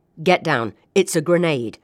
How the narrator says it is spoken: shouted a soldier

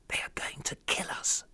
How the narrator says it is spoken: Daoud said to me in a whisper

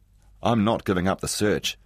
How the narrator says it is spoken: he said

